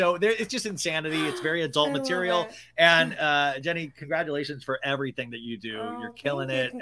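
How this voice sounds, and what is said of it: Usual voice. Nothing is said of it.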